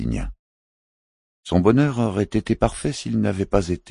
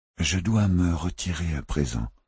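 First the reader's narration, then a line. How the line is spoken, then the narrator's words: Murmured. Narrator (French): murmura Philippe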